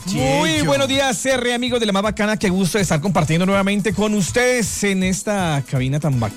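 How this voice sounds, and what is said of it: Radio announcer voice. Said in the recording (Spanish): “Tiene voz de locutor.”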